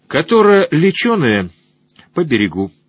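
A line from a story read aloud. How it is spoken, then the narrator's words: Plain. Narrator (Russian): сказала я побратиму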